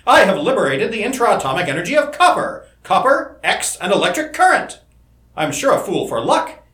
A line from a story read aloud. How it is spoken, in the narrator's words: he exclaimed